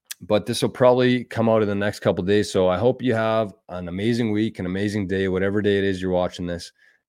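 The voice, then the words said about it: Hoarse, worn-out voice. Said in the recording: “I'm losing my voice. I auctioneered last night for a Calcutta for a golf league, and so my voice has been pretty beat up the last couple days.”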